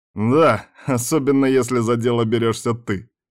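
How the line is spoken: Chuckling. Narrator (Russian): хохотнул Ирон

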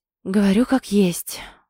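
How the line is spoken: Tired sigh. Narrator (Russian): вздыхая устало

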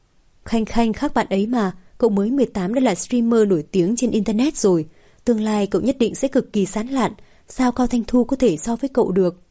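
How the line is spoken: Bursting out laughing. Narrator (Vietnamese): Vũ Minh Hân cười phá lên

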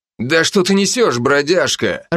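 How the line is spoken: Growl. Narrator (Russian): рыкнул

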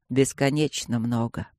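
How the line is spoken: Quiet. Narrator (Russian): сказал он тихо

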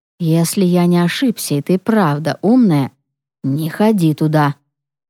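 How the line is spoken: Whispered. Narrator (Russian): прошептал он

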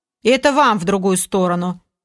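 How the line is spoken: Sleepy, grumpy mutter. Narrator (Russian): Пробурчал недовольный и сонливый Олег

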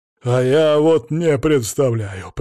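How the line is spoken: Breathless wheeze. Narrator (Russian): признался барон, перевел дух и просипел

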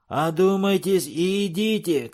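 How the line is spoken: Shout. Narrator (Russian): крикнул Джим

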